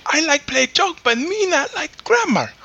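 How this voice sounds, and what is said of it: Put-on mock Asian accent. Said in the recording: “What the fuck was that accent? ... That was Asian.”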